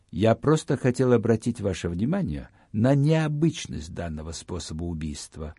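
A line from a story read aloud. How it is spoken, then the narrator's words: Calm. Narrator (Russian): спокойно ответил мне Гамигин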